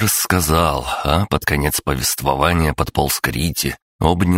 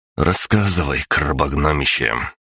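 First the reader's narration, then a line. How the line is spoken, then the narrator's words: Sigh. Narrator (Russian): вздохнул я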